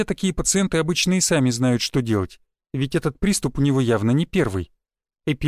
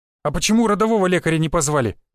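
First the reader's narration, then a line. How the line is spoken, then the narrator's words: Sharp shout. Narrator (Russian): прикрикнул Юсупов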